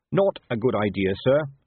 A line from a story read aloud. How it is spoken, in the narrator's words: said Carrot firmly